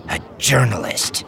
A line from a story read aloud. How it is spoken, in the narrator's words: she spat, infusing the single word with the same disgust and loathing